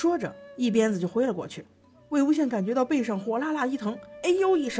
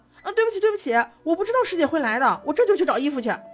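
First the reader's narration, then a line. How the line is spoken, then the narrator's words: Loud. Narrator (Chinese): 魏无羡大声道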